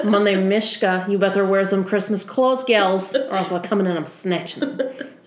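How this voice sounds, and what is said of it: Put-on Russian accent cat voice. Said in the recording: “Mishka has a Russian accent. That's why we do that.”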